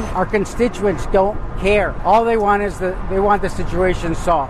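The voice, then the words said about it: Strong Chicago accent. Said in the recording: “that guy's got the perfect Chicago accent.”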